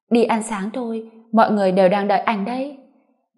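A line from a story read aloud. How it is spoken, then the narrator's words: Smiling, emotionless. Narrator (Vietnamese): mỉm cười, nói mà vẻ mặt không có cảm xúc gì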